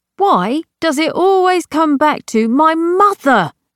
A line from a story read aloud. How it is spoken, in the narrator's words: I said, my voice rising to a squeal like an emptying balloon